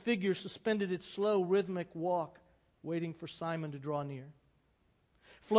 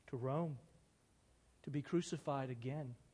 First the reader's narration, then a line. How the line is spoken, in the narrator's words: his rabbi answered in a low voice